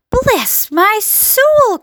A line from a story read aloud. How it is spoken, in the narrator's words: cried the head of the fire department, going red in the face